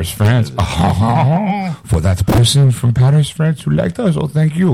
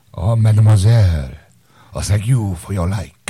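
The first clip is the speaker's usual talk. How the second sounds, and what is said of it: Put-on French accent. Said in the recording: “That stupid French accent.”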